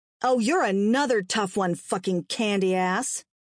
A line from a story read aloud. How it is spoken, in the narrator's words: Lexi spat